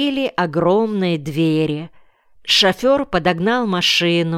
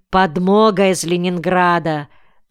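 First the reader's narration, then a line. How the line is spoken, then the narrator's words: Plain. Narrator (Russian): ответил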